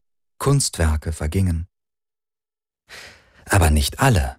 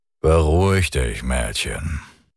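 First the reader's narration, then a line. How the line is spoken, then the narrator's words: Low grumble. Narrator (German): brummte er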